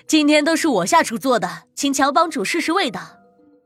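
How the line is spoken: Laughing woman. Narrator (Chinese): 老板娘 笑着说道

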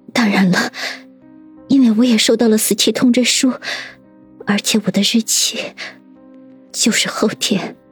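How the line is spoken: Slightly trembling voice. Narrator (Chinese): 叶新宇声音微微颤抖地说道

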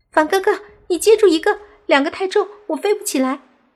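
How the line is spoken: Loud shout. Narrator (Chinese): 小狐妖大喊

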